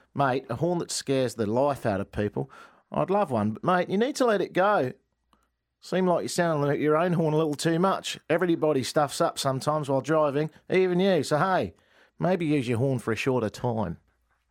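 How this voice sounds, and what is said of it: Put-on Australian accent. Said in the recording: “the accuracy of my brilliant accent ... The accent was spot on. ... Australians are cursing you right now.”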